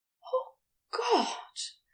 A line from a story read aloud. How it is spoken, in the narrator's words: groaned